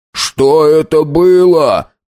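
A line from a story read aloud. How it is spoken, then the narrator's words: Shout. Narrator (Russian): прокричал Хиллари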